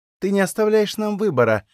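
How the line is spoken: Sighing. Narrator (Russian): вздохнул инкуб

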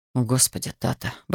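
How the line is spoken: Muttering. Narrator (Russian): бормотал

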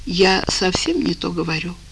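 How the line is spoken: Tearful sigh. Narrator (Russian): вздохнула Катя и вытерла глаза

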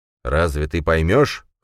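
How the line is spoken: Snorting. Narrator (Russian): хмыкнул Баргат

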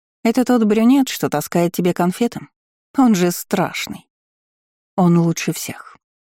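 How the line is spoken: Calm reply. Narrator (Russian): спокойно ответила Агата

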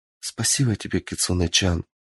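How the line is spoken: Quiet sigh, happy tears. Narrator (Russian): Едва сдерживая слезы счастья, тихо вздохнула Мичи

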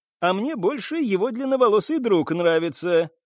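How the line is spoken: Giggling. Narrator (Russian): хихикнула Анна

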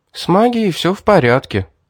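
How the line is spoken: Tired sigh. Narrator (Russian): устало вздохнула девушка

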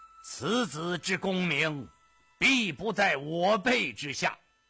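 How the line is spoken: Loud proclamation. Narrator (Chinese): 首辅杨廷和 高声的预言

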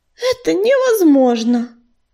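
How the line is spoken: Sighing. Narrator (Russian): вздохнула кисточка

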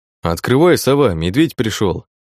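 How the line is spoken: Calm, to himself. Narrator (Russian): Спокойно сказал вслух, больше для себя

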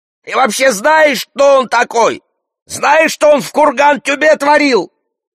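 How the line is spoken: Yelling from a distance. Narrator (Russian): Хирург вопит издали

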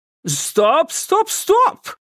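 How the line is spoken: Shouting. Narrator (Russian): закричал он

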